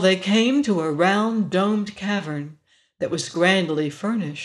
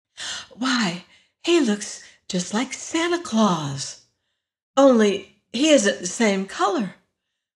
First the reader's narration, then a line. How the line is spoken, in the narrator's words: whispered Dorothy to her friend